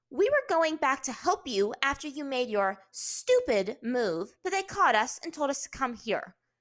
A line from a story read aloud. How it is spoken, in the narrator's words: Azula said sharply, emphasizing the word stupid